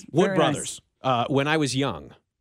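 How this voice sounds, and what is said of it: Music radio announcer voice. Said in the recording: “As if you did that as if you're, you know, down the hall on a music station down the hall. ... I can still do the voice.”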